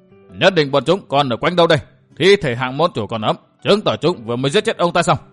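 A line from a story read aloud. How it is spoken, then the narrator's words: Very loud shout. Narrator (Vietnamese): một tiếng nói rất to quát vang lên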